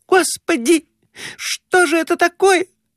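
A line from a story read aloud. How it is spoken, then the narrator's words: Shriek. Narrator (Russian): взвизгнула Глафира Семеновна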